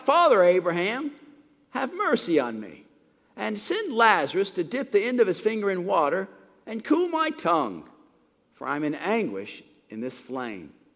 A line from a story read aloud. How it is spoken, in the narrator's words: he called out